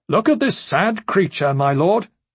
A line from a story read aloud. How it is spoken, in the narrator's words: Prince Aemon called out